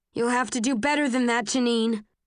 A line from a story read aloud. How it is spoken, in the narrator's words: say in a loud voice